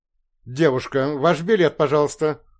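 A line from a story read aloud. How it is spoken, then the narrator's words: Stern woman. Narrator (Russian): строго сказала женщина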